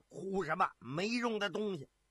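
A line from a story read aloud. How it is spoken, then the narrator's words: Angry roar. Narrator (Chinese): 把眼一瞪，怒喝道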